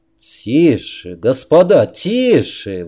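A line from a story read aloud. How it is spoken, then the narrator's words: Exclamation. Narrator (Russian): воскликнул Грейсон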